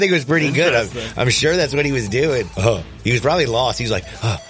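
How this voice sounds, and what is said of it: Usual voice. Nothing is said of it.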